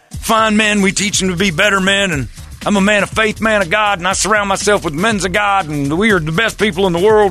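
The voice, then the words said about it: Mock Southern American accent. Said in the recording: “They all have Southern accent.”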